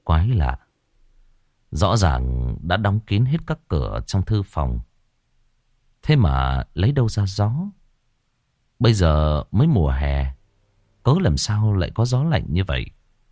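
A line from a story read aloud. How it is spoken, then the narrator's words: Muttering. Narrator (Vietnamese): Ngài lẩm bẩm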